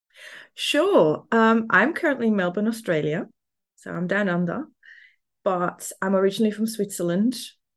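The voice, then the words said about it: Slight Swiss German accent. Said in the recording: “there's an accent there ... there might be a little bit of a German accent in there for anyone that's really good at picking up accents. So it's a bit of a mix.”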